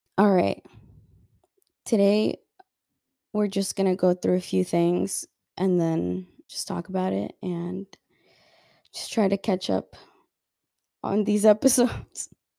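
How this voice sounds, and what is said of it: Raspy voice from a cold. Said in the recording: “my voice sounds really bad, it's because I have a cold ... It sounds raspy ... it hurts to speak”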